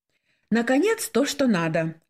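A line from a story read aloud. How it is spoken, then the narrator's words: Joyful exclamation. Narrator (Russian): радостно воскликнула Светлана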